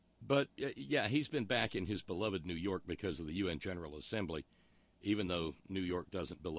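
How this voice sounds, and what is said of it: Usual voice. Nothing is said of it.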